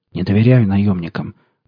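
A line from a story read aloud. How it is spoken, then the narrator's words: Grumbled. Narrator (Russian): буркнул радист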